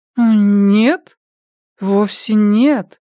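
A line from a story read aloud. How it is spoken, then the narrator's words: Uncertain voice. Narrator (Russian): неуверенным голосом произнесла Ясмин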